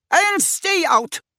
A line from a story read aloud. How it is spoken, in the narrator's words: shouted Madame Ross Myrtle